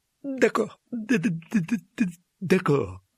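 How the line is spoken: Sobbed. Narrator (French): sanglota Quirrell

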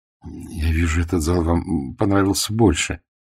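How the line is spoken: Quiet. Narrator (Russian): негромко сказал Антон Маркович

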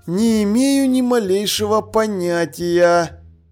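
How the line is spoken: Sighing. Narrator (Russian): вздохнул Ваймс

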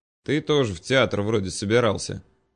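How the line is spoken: Snorting. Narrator (Russian): хмыкнул я

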